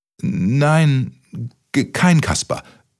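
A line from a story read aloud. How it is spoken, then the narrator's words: Stammered. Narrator (German): stotterte Kaspermütze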